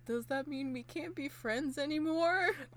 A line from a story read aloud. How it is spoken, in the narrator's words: Daruma really sadly is like